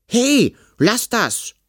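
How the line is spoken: Indignant shout. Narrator (German): rief Kalli empört

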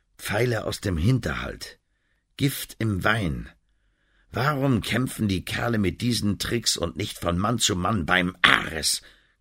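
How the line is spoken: Tired growl. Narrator (German): knurrte er müde

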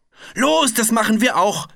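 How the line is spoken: Shouted. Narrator (German): schrie Piggledy

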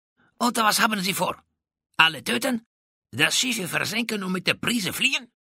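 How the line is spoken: Hissed. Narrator (German): zischte San Juan de Anton

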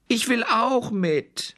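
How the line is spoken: Little bear calling. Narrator (German): rief der kleine Brüllbär

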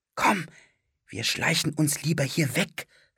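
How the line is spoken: Whisper. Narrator (German): flüsterte Philipp

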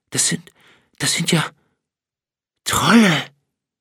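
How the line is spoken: Trembling voice. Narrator (German): vollendete Tjorgi den Satz mit bebender Stimme

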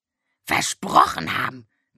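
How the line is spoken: Croaking raven. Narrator (German): krächzte der Rabe Abraxas

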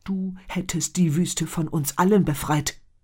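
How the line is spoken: Angry hiss. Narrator (German): zischte Muqtab wütend

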